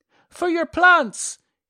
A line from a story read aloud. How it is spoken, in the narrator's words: he kept shouting